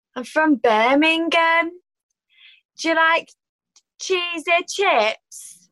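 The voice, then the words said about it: Attempted Birmingham accent. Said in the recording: “like the Birmingham accent ... I'll try and give that a go ... Was that Birmingham? ... I think so. Yeah. I think so.”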